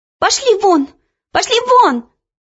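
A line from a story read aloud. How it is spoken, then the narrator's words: Shouting. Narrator (Russian): закричала она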